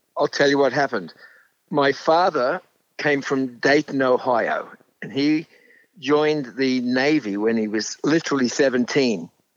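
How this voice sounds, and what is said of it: Australian accent. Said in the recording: “I detect an Australian accent”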